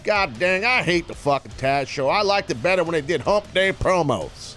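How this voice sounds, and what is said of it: Texas fan accent impression. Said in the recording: “spot on impersonation of the Texas fan base ... that was more Texas”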